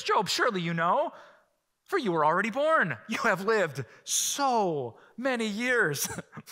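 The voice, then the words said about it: Sarcastic delivery. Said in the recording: “That's God being sarcastic”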